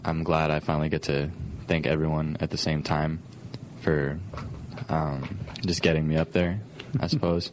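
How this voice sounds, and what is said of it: Good radio voice. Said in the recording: “you had a better radio voice by far than I do”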